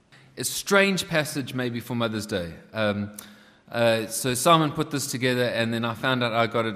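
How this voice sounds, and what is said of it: Non-local accent. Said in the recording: “as you can probably know from my accent, I wasn't born here”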